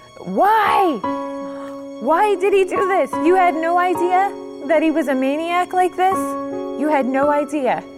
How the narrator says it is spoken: I was screaming in the streets of Chicago

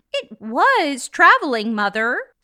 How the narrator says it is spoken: said the child eagerly and willfully

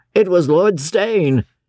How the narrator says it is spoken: said Brown, with a sneer

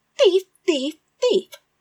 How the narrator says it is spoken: screamed

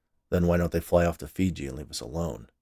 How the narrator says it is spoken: Oscar replied sarcastically

